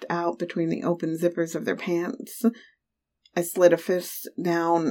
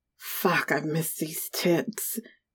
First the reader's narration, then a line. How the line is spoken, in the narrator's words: he growled